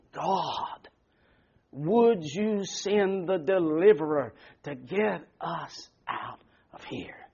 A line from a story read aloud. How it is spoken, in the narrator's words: they ended up groaning